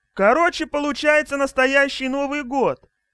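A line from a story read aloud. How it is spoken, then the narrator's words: Joyful exclamation. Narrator (Russian): радостно воскликнула Каролина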